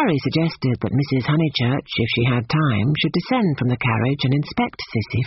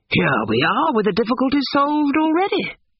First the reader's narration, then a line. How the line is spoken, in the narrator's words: he cried